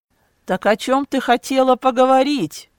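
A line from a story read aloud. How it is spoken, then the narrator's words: Shout. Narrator (Russian): крикнул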